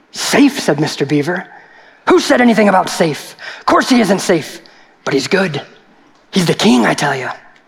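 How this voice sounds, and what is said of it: Storytelling character voice. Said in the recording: “do my reading voice ... was that a good Mr. Beaver?”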